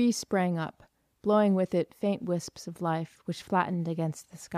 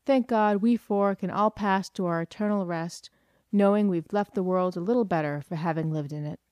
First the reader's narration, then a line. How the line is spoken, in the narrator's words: concluded with a laugh